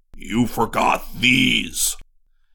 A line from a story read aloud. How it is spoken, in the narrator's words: Zircon bellowed